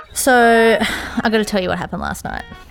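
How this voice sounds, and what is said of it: Downcast, depressed-sounding tone. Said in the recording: “You sound so depressed”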